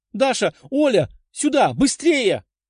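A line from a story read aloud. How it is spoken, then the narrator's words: Loud emotional shout. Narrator (Russian): Громко прокричала Лиза, чьи глаза воспылали пламенем от переполняющих ее эмоций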